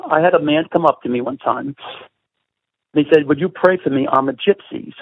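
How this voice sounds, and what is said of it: Brooklyn New York accent. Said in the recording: “you can tell by my accent, I have a Brooklyn colloquialism”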